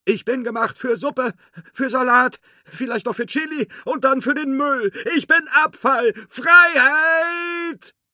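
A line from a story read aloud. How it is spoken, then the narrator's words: Called out. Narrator (German): rief er noch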